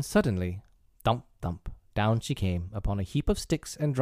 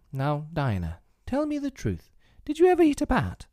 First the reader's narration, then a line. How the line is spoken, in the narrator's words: saying to her very earnestly